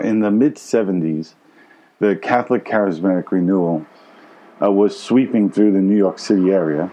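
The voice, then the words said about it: Brooklyn New York accent. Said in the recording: “Grew up in Brooklyn, New York. Maybe you can tell by my accent.”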